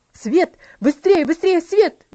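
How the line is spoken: Shouting. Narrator (Russian): закричал он

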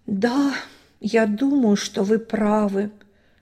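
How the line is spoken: Sad sigh. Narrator (Russian): печально вздохнул Син

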